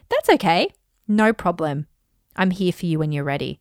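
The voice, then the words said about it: Smooth virtual assistant voice. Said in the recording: “I'm doing it in my like Alexa voice.”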